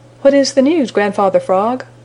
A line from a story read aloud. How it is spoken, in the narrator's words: cried the Merry Little Breezes